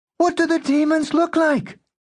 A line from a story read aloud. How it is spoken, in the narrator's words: Klein shouted